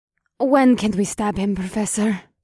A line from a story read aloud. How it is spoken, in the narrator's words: Circe asked in an eager voice